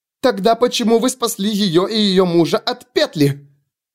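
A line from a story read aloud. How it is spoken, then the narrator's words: Screaming. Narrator (Russian): завопила Селеста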